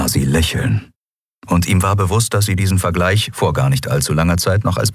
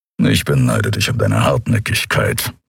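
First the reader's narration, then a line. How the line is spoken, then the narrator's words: Grumbled. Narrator (German): brummte Kero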